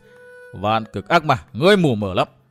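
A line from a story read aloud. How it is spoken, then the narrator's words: Loud la. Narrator (Vietnamese): Thanh kiếm vũ sĩ Độc Cô Phong cười lớn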